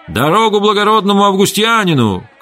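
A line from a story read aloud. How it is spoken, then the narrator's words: Several men shouting. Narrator (Russian): кричали скороходы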